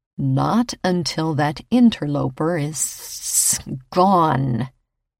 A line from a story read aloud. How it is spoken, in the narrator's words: he informed me with another hiss